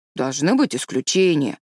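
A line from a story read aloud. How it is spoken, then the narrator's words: Grumbling. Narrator (Russian): проворчал Дэви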